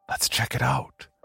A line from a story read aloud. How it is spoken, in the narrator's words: he whispered with a grin on his face